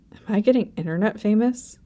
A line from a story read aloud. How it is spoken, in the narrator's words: He muttered, frowning